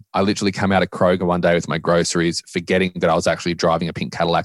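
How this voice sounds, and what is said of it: Australian accent. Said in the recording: “I'm a white Australian guy with an accent”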